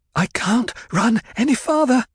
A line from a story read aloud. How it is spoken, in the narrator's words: Jessica panted